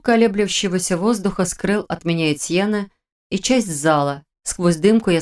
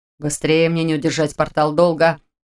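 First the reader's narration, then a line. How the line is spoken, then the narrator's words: Growled. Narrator (Russian): прорычал Этьен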